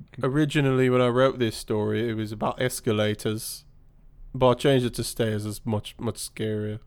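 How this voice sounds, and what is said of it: British voice imitating another person. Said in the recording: “Is Clive Barker British? Is that why you're doing the voice?”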